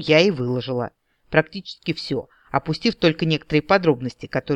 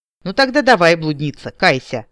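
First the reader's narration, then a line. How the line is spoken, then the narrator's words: Amused snort. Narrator (Russian): хмыкнул брат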